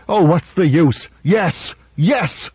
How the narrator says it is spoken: Ninheimer shouted

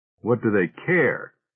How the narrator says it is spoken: asked Davis sharply

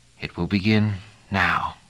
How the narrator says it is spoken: he whispered

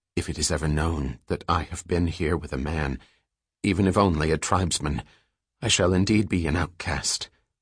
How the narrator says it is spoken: Raindrop 43 said softly, as though talking to herself

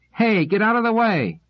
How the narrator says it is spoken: Some of them yelled

